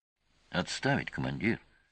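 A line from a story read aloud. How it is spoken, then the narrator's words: Calm whisper. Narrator (Russian): спокойно прошептал Олес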